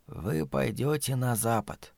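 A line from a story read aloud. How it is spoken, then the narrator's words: Old woman whispering. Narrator (Russian): прошептала матушка Абагейл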